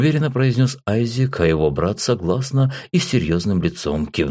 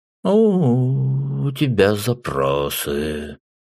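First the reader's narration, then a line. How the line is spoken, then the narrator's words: Snorting remark. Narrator (Russian): хмыкнув, сказал Майерс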